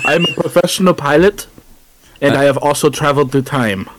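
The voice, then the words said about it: Put-on vague foreign accent. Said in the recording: “I don't know what accent I'm doing here.”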